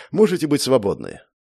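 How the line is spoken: Weary dismissal. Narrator (Russian): устало отмахнулся куратор

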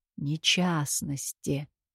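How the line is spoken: Muttering. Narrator (Russian): бормотал под нос Кирино

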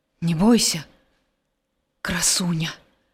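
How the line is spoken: Quiet. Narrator (Belarusian): ціха сказаў Геракл

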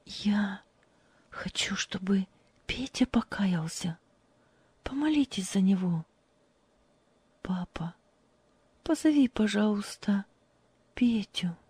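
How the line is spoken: Quiet. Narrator (Russian): тихо сказала

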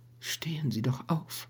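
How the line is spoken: Weak voice. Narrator (German): sagte sie endlich mit schwacher Stimme

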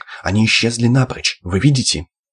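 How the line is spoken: Almost calm interjection. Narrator (Russian): Полковник почти спокойно вмешался

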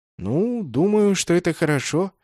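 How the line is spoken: Uncertain. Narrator (Russian): неуверенно произнес я

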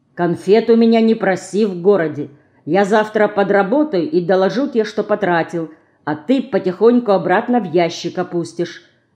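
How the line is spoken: Stern. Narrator (Russian): строго сказал

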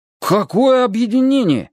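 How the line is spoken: Astonished exclamation in unison. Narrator (Russian): хором воскликнули Паша и Света, с изумлением

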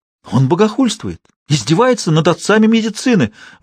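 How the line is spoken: Shrieked. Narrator (Russian): взвизгнул Декарт

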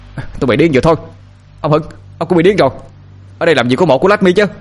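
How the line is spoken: Continued yelling. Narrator (Vietnamese): Sinh tiếp tục la hét

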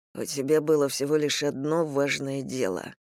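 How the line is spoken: Muttered. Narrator (Russian): пробормотал он

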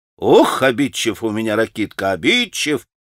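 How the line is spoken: Laughing. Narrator (Russian): засмеялась Грушенька

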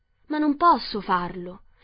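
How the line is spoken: Very surprised exclamation. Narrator (Italian): esclamò Dorothy assai sorpresa

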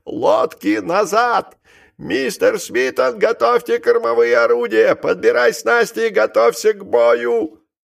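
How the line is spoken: Sudden thin high-pitched shout. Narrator (Russian): вдруг закричал своим тонким высоким голосом

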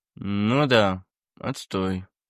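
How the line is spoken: Mumble. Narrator (Russian): промямлил он

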